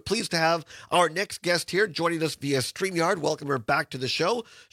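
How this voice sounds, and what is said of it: Voice audibly off. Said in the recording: “as I fight my allergies here. I apologize for the voice today”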